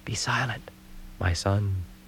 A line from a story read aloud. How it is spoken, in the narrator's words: she whispered